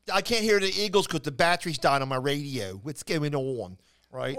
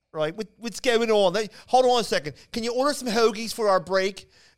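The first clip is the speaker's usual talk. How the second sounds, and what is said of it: Thick Philadelphia accent. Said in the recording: “It's just a thick Philly accent.”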